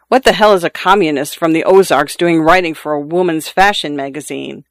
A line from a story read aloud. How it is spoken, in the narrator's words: Luis chuckled